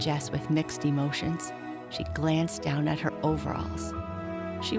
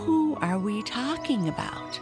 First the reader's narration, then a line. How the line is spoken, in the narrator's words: gasped her chum